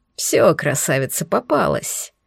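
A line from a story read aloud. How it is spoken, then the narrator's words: Laughing. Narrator (Russian): смеялся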